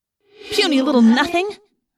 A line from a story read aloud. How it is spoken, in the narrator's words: Rachel cried, outraged